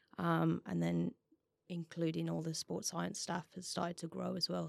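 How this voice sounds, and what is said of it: West Midlands English accent. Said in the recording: “the more you speak, the more you start to hear the accent coming through... I'm originally from West Brom. Birmingham.”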